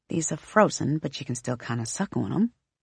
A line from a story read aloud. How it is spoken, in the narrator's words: she mutters